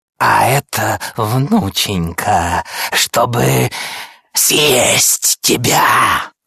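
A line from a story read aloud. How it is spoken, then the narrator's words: Wolf growling. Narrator (Russian): Зарычал волк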